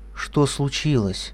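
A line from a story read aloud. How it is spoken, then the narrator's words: Quiet question. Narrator (Russian): она тихо спросила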